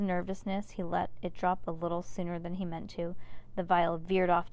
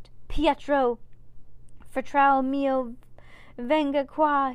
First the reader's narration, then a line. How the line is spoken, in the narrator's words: cried